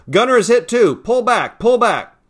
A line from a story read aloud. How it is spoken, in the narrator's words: Danny yelled to the pilots